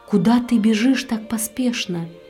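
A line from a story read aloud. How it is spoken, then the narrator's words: Plain. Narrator (Russian): спросил ее префект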